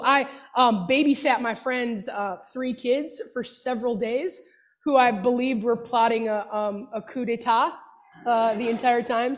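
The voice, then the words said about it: Slightly congested voice. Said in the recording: “I've got a little bit of a cold.”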